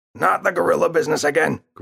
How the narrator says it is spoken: grunted Father

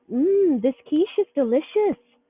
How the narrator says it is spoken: Dina exclaimed

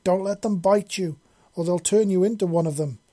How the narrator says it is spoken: Missy yelled from her back, shouting to be heard over the crescendo of screeches and roars from the crowd

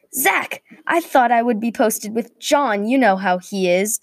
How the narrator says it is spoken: Daniel yelled back

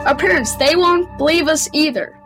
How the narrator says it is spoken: Matt yelled

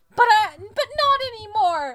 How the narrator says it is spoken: I yelled

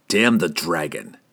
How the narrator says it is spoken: Drizzt hissed back

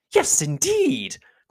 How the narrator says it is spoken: cried Mrs

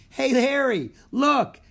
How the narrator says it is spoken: exclaimed

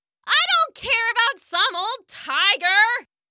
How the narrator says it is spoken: the girl screamed

